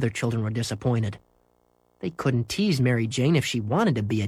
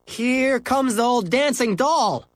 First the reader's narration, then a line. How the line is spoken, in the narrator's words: yelled Henry